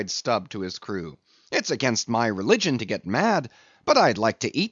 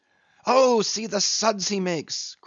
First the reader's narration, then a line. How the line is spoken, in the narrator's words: cried Flask, dancing up and down